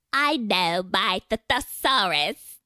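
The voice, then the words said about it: Put-on British accent. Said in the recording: “Tell me that in a British accent”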